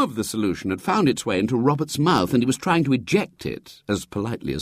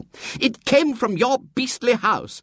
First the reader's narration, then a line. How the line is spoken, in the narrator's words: said Marion angrily